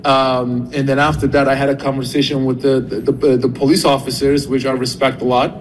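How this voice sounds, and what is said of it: Turkish accent. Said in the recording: “he is originally from Turkey. That's the accent.”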